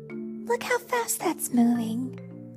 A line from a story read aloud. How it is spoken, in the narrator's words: murmured Batgirl